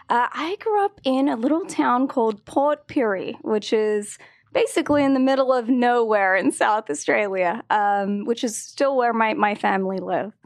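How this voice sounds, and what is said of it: Slight Australian accent. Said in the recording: “we hear a little accent ... I'm from Australia ... I like to think that I sound American these days”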